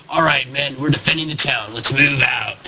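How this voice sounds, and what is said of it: Imitates corny game announcer voiceover. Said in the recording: “the corny intro music when the map starts ... my impression is too good”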